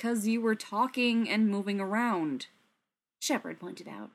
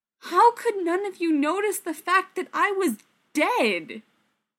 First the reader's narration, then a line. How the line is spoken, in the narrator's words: Rodney said, slightly desperately